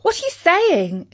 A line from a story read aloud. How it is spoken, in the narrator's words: exclaimed Katie